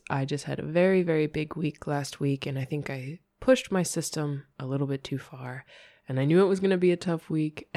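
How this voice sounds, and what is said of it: Slightly sick, cold-affected voice. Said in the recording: “if you can hear it in my voice, I have a little bit of a cold, nothing serious”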